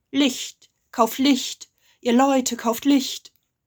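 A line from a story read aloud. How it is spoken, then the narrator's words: Calling out. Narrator (German): rief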